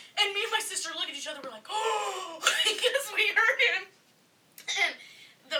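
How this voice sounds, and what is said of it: Usual voice. Nothing is said of it.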